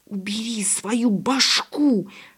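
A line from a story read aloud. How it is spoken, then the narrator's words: Hiss. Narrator (Russian): шипел брат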